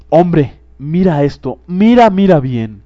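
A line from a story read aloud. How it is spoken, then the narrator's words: Ghost exclaimed. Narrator (Spanish): exclamó el fantasma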